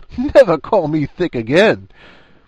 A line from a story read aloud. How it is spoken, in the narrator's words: Her voice moaned from under the cloud of bushy hair